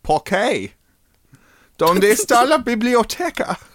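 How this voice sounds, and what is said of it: Spanish spoken in a put-on German accent. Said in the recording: “speaking Spanish in, like, a German accent. ... The German accent I do. ... I'm German now”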